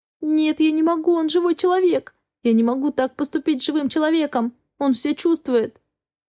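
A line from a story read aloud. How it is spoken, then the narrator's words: Sobbing. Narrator (Russian): Вновь приступ рыданий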